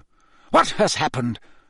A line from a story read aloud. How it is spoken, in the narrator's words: said Dumbledore sharply